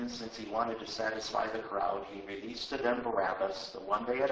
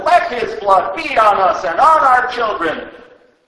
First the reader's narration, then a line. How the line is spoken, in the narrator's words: all the people shouted